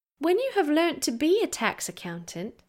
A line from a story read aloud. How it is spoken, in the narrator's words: said gently